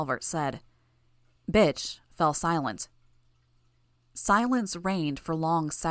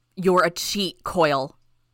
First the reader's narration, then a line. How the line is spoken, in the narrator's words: Bitch barked